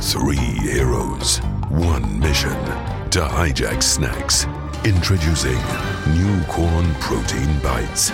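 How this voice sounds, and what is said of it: Serious dramatic announcer voice. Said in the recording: “Why are you doing the serious voice? ... why are you doing the serious voice?”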